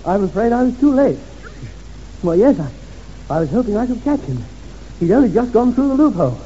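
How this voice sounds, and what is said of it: Feigned breathless, out-of-breath speech. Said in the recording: “I must remember to be out of breath ... I'm a bit out of breath.”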